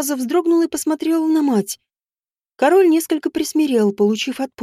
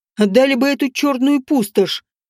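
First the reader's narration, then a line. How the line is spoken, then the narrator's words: King barking. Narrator (Russian): рявкнул король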